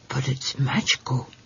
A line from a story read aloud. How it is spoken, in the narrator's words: he whispered